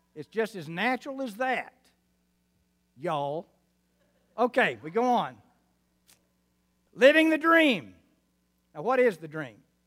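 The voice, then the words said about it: Arkansas, New Mexico, West Texas accent. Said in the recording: “my Arkansas, New Mexico, West Texas accent”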